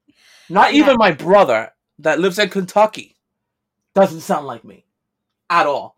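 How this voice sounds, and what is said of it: Strong New York accent. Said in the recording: “You have that strong New York accent.”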